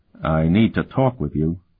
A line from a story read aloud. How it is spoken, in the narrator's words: he said quietly